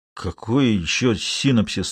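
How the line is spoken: Forced out with difficulty. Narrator (Russian): с трудом выдавил Миша

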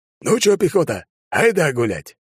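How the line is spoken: Exhaled. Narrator (Russian): Я выдохнул

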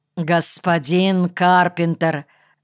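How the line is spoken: Stern. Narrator (Russian): строго произнес Хорошавцев

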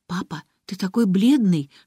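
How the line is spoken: Whispered. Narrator (Russian): шепнула Алиса

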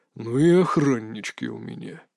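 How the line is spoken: Said through teeth. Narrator (Russian): процедил отец

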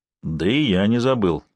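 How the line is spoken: Grumbled. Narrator (Russian): проворчал Сварог

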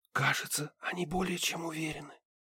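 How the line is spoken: Whispered. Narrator (Russian): прошептала Харми

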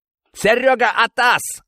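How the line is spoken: Man yelling. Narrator (Russian): заорал мужик

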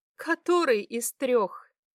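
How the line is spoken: Laughing. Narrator (Russian): Засмеялась она

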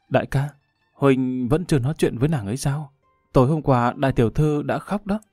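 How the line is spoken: Soft sigh. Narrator (Vietnamese): Xào Xào khe khẽ thở dài

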